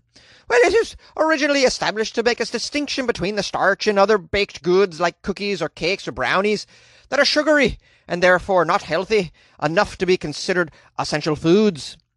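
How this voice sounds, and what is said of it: Attempted Irish accent. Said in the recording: “I can't do an Irish accent. ... Is that any good? I don't know. I worked on it.”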